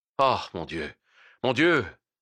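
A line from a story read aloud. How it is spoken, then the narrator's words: Sighed. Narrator (French): soupira le docteur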